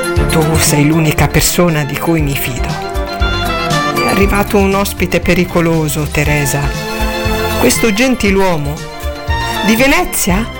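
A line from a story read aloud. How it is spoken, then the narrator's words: Sing-song schoolgirl voice. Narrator (Italian): chiese la fanciulla con voce cantilenante da scolaretta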